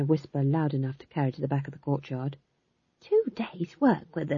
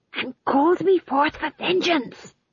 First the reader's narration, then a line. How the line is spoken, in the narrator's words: hissed Tom John